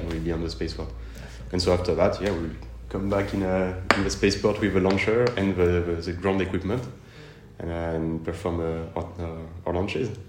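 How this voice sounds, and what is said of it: French accent in English. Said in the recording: “my French accent was not that, that hard to understand.”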